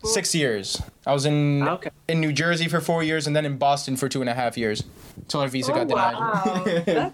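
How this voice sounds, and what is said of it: American-sounding English accent. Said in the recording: “You can definitely pick that up. ... you sound really quite American.”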